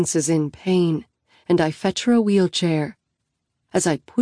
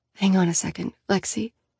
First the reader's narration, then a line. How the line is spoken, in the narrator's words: she murmurs